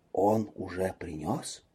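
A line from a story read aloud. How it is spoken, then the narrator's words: Ominous whisper. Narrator (Russian): Анжелика понизив голос до зловещего шепота, произнесла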